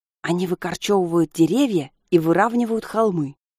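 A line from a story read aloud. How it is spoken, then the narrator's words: Conspiratorial whisper. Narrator (Russian): заговорщически шепнула Алиса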